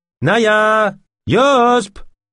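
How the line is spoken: Shouted again. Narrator (French): cria de nouveau De Lune

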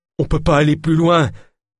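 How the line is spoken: Moaning. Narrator (French): gémit Jacquenot

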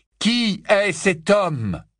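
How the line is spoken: Loud repetition. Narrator (French): répéta Harry d'une voix forte

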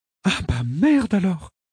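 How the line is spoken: Exclaiming. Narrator (French): s'exclama Rachel

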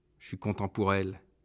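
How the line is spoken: Murmured. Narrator (French): murmure Robert

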